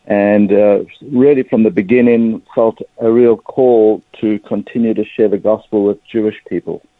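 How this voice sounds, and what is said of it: South African accent. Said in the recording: “as you can probably pick up pretty quickly from my accent, I'm a South African Jewish person.”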